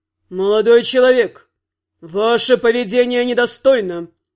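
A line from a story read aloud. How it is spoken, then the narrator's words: Deep bass voice. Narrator (Russian): пробасил Вонгард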